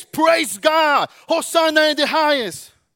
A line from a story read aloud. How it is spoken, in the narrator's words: shouted later